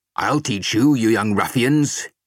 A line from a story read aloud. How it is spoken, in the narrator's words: roared